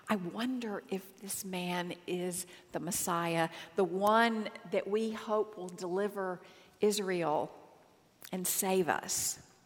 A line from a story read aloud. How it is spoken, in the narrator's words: whispers of people saying